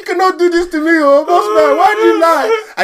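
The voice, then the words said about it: Put-on African accent. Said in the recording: “I even put a bit of an African accent ... I put it on a bit.”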